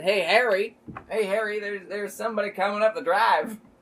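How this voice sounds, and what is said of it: Put-on vague Southern accent. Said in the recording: “That's a Kentucky accent in this timeline. ... Vaguely Southern.”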